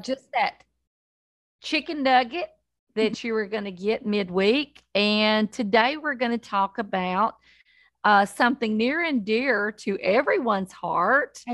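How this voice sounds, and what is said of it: Southern American accent. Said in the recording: “they happen to have Southern accents too”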